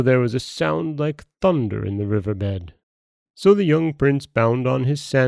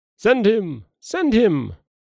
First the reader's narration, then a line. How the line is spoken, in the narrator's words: all the deities assented with one accord and cried